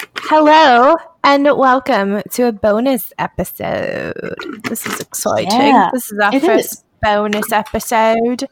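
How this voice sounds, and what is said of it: Briefly put-on accent. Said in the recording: “I immediately regretted that accent choice ... it was immediately dropped”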